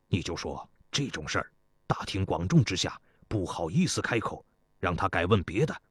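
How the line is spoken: Low voice. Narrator (Chinese): 高将军在一旁低声说道

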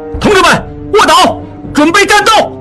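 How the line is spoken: Startled loud shout. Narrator (Chinese): 应季吃了一惊，大喊道

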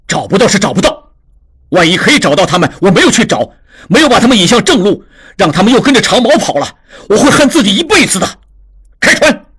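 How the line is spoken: Furious. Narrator (Chinese): 智庸大怒

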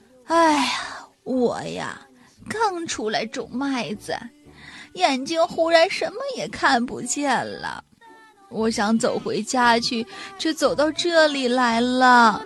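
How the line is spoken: Old woman sighing. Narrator (Chinese): 老奶奶叹了气说

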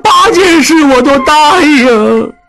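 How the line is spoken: Shouting. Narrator (Chinese): 小栓大叫道

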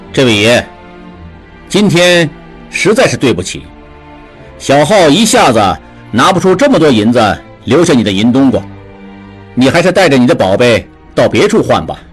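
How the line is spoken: Calm, indifferent. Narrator (Chinese): 智庸 不紧不慢地 淡淡地说

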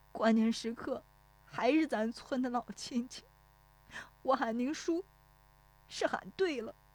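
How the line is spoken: Tearful, choked voice. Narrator (Chinese): 石有福 顿时觉得一汪热泪涌出来，带着哭腔说

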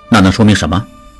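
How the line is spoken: Low question. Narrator (Chinese): 智庸低声问

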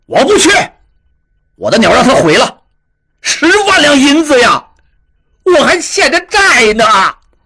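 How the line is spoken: Furious roar. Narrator (Chinese): 应震咆哮道

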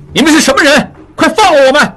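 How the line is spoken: Loud, struggling shout. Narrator (Chinese): 应济奋力挣扎起来，大声喊

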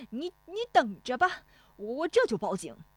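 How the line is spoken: Shouting. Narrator (Chinese): 冯谷子嚷

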